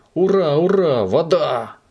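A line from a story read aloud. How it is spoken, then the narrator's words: Cheerful exclamation. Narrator (Russian): весело воскликнул Субастик при виде шланга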